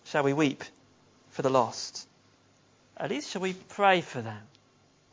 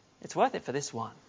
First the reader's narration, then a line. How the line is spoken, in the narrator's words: And the boy looked at the jellyfish in his hands and he quietly said